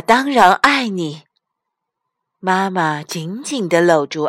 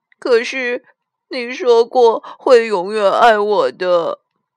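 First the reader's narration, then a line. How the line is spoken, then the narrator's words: Crying. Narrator (Chinese): 阿丽哭着说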